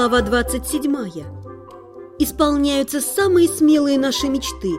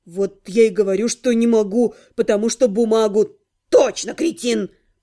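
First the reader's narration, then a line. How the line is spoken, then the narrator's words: Snorting. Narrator (Russian): Фыркнул кабан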